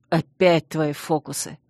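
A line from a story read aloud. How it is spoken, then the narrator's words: Irritated grimace. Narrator (Russian): Раздраженно скривился Чейз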